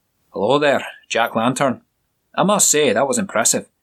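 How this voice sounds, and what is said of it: Strong Scottish accent, character voice. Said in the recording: “a tall, bare of a man with ginger hair ... with a strong Scottish accent breaking the room's tension.”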